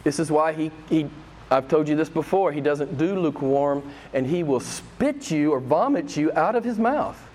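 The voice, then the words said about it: Screaming, loud fired-up preaching. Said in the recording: “I know I'm screaming a lot.”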